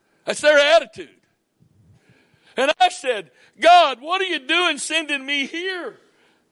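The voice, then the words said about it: Southern US accent. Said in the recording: “my accent says I'm from the southern part of the United States ... the way I talk”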